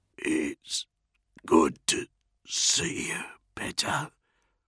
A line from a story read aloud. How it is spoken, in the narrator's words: Bronzy murmured